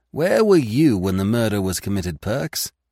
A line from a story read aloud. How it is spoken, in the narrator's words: he asked